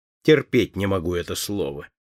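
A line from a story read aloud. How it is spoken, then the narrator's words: Angry interruption. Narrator (Russian): сердито перебил ее Том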